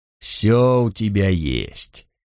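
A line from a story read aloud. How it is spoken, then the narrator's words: Soft, ingratiating soothing. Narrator (Russian): вкрадчиво успокоил один из парней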